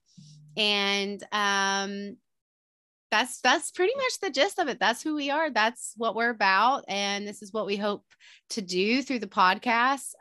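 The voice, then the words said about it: Thick Southern US accent. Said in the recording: “your Southern accent ... it's definitely not as thick as mine”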